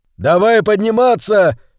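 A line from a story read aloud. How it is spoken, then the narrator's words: Shout. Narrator (Russian): крикнул Хилала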